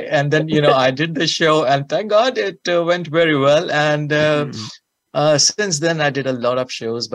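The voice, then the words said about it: Indian accent. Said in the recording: “I'm a small boy from India, you know, and with my accent”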